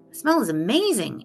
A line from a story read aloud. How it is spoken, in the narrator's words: exclaimed the detective